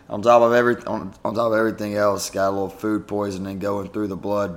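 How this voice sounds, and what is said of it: Slightly raspy voice. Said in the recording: “my voice is just a little bit raspy right now”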